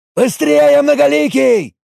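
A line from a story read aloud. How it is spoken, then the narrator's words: Yelled. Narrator (Russian): Заорал он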